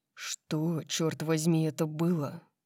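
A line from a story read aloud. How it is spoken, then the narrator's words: Low-voiced question. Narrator (Russian): Вполголоса спросил его Дариус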